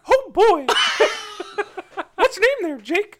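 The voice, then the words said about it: Mickey Mouse cartoon voice impression. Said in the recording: “You do Mickey Mouse? ... Mickey Mouse. ... Oh, my gosh, that's really good. Man, I'm impressed.”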